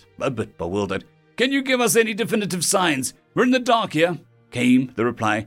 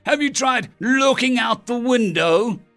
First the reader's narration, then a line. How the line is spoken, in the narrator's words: I yelled out into the radio